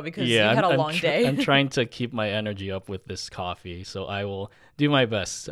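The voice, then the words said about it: Tired, low-energy drawl. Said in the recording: “our listeners can probably tell there's a difference between your peppy voice and my kind of like drawl”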